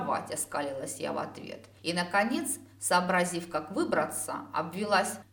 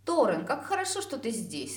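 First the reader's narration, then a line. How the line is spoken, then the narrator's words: Joyful declaration. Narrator (Russian): радостно заявила я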